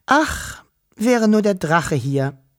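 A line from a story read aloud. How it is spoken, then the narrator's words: Sighing. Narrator (German): seufzte Wischel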